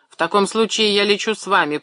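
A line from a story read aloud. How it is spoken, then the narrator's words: Shouting over aircraft roar. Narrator (Russian): прокричал он в ухо Гельмуту, сквозь рев взлетающих один за другим юнкерсов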